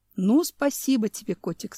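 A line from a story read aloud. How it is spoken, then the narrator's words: Laughing. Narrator (Russian): смеялся Семен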